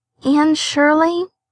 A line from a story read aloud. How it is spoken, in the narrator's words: reluctantly faltered forth the owner of that name